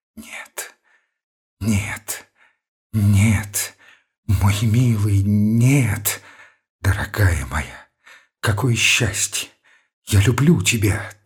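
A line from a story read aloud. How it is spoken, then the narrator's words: Slow whisper. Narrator (Russian): повторяла медленным шепотом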